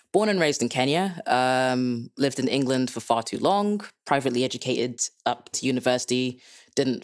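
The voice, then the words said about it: Hard-to-place Dutch-Kenyan accent. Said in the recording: “I'm Dutch-Kenyan, so if you can't place my accent, that's a beginning of the reason why”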